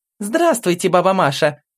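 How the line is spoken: Loud pleased greeting. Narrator (Russian): Громким и довольным голосом поздоровалась Алина

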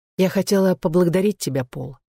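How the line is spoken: Quiet. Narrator (Russian): сказала Гладис негромко

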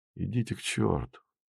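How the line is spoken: Indifferent, tired reply. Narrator (Russian): Еще не успев осознать оскорбление, так же равнодушно и устало ответил Красин

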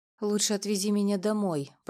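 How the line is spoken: Tense, through gritted teeth. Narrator (Russian): процедила она, напрягаясь всем телом

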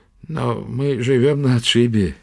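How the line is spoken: Uncertain objection. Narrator (Russian): неуверенно возразил Тороп

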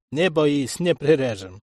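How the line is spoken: Chuckling. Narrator (Russian): хохотнул Артур

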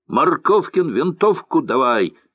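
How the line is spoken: Angry shout. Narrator (Russian): гневно крикнул Мануил

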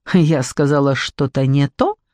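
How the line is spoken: Malicious smirking tone. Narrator (Russian): злобно ухмыльнулась Морвин

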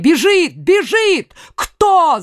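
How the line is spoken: Queen mother's shout. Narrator (Russian): закричала королева-мать

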